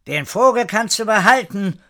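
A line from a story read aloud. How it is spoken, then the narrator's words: Calling out. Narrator (German): rief Frau Horatio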